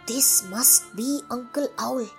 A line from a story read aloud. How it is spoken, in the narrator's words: whispered the men